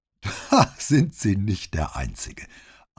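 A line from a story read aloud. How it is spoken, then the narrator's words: Laughing reply. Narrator (German): antwortete sie mit einem Lachen, das ihren ganzen Körper zum Babbeln brachte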